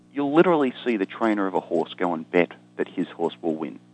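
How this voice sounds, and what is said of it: Australian accent. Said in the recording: “you can probably tell from my accent, I'm an Australian”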